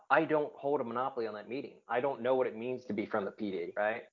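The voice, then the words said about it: Nasally New Jersey accent. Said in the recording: “this nasally accent, I'm from Jersey”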